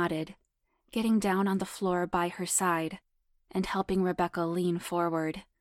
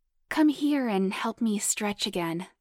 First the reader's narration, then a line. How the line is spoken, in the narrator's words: purred hotly